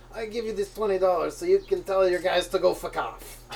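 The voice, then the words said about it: Bad put-on Italian accent. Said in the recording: “my Italian accent is terrible”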